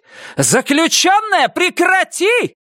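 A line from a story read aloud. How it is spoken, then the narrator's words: Women shouting. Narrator (Russian): Кричали женщины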